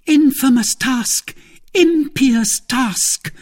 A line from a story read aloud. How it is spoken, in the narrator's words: cried Milady, with the exultation of a victim who provokes his judge